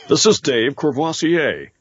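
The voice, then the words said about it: Announcer-style delivery. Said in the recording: “in your best announcer voice”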